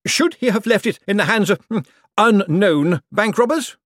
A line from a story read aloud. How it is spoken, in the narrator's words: a voice shouted